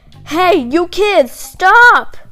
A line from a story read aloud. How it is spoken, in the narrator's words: The tall man cupped a hand around his mouth and shouted